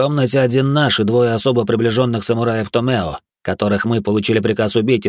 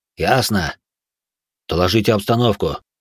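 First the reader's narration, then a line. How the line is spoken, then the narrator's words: Sullen grumble. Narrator (Russian): угрюмо буркнул Тейджо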